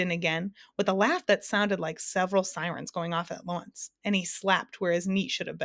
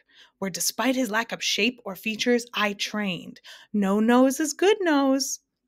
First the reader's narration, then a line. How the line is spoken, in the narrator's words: thundered the Din once again as he collapsed into another fit of hysterics